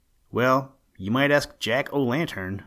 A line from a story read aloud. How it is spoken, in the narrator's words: said the musician